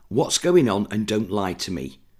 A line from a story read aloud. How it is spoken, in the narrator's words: Catherine finally said, her voice steadier than she felt